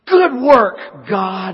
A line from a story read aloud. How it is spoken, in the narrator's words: a loud voice that erupts and exclaims